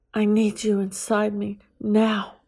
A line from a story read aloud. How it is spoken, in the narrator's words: I heard Sarah say in a demanding voice